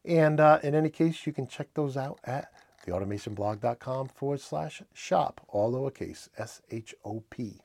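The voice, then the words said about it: New England accent. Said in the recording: “My New England accent's getting me there.”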